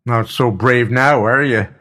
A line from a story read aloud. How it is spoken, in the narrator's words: shouted